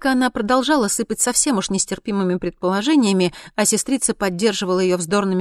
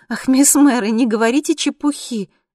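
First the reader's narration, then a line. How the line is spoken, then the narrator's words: Forced cheerful laugh. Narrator (Russian): ответила, пытаясь весело засмеяться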